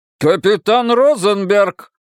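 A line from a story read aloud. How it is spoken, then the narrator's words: Barked. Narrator (Russian): рявкнул мэр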